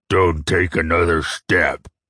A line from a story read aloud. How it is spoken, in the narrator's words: the Risi warrior growled